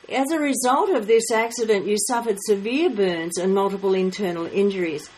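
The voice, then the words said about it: Australian accent. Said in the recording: “It's an Australian pronunciation ... we don't think we've got an accent, but I mean, hey, we might have ... I love the Aussie's accent.”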